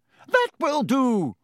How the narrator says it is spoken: shrieked Madame Hooch

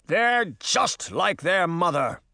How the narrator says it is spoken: Oberon shouted

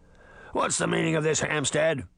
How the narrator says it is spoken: the Beast growled

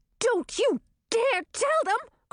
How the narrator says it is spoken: cried Chartreuse

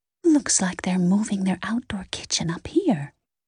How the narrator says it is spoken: Lexi whispered

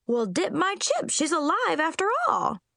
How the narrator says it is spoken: exclaimed

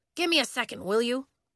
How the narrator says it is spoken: Coach said

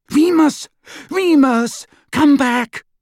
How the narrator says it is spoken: cried

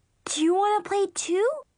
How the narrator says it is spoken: Brianna asked excitedly

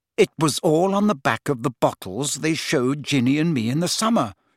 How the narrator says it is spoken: she said coldly

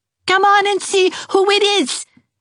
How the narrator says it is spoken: cried Geraldine

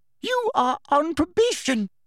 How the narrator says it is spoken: shrieked Professor Umbridge

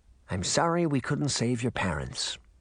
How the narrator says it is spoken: he whispered

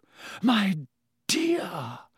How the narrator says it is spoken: Professor Trelawney breathed

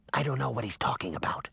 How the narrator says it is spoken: Sabrina whispered back

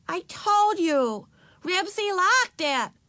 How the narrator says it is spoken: Ramona shouted

